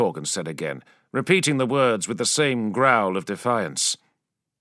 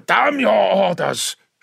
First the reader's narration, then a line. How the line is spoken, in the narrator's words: Shaban roared